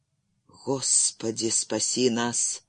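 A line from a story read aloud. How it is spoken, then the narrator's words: Whisper. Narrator (Russian): прошептал Джерри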